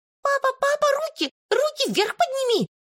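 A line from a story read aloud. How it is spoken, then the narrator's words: Squeaky child's voice. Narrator (Russian): запищала Славке маленькая Марьяша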